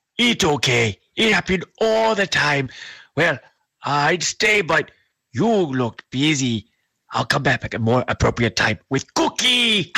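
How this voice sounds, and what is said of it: Cookie Monster character voice. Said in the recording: “Is that the real Cookie Monster?”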